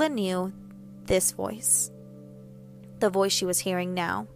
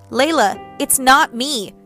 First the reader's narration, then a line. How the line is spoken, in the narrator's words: her mother shouted